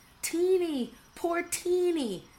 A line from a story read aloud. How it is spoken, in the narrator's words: gasped her horrified sisters